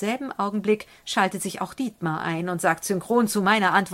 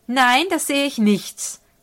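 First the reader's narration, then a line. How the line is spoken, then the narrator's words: Gruff retort. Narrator (German): kontere ich barsch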